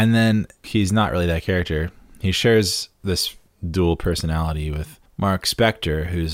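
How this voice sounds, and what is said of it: Usual voice. Nothing is said of it.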